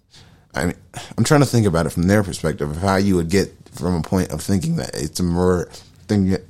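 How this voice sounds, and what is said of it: Mumbling, unclear speech. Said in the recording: “talking like a mumble mouthed idiot”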